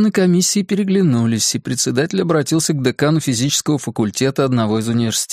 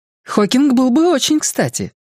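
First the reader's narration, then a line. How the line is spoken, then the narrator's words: Exclaiming. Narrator (Russian): воскликнула Линь Юнь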